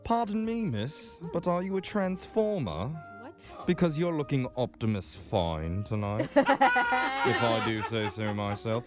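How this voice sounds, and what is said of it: Put-on British accent. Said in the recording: “Can you tell I'm a British person? Well, I'm not really, because I just learned this accent off YouTube”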